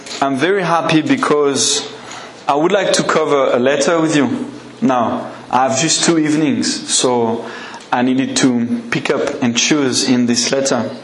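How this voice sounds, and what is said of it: French accent. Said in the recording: “I have a strange accent? ... I'm still French”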